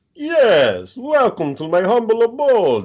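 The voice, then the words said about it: Dracula character voice. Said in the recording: “I had to be like Dracula”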